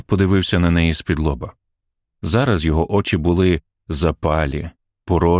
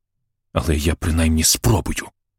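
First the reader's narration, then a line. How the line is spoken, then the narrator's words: Hissing. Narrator (Ukrainian): просичала Мейрі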